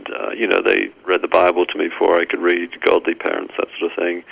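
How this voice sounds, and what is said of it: English accent. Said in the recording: “you can tell from my accent that I'm from England originally”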